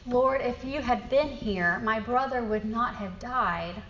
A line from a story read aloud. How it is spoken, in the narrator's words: lament, heartache, and even accusation as we have cried out